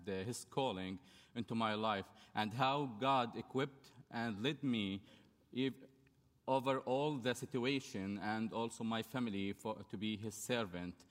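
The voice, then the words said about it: Non-native English, Arabic accent. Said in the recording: “please forgive my poor English and my poor accent ... I'm from Jordan”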